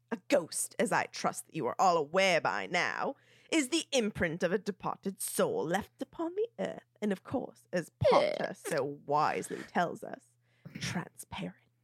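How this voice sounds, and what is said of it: Snape voice crossed with Bert. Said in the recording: “You almost sound like Snape and Bert from Mary Poppins kind of crossed. ... Nothing about that accent was Cockney. ... A little tiny.”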